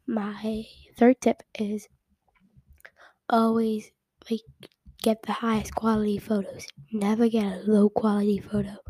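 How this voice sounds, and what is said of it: Unusually deep, sick-sounding voice. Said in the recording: “my voice is kind of starting to go really deep because I'm sick. I'm still sick ... if you take a phone call upside down in your bed, that's kind of what my voice sounds like”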